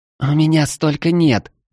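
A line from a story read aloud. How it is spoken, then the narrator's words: Groaning in pain. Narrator (Russian): Эльфийка вновь застонала от боли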